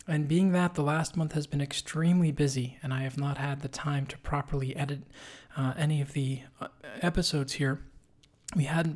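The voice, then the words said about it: Raspy voice. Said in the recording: “My apologies for the raspy voice today, but I am getting over a second bout of some nasty virus”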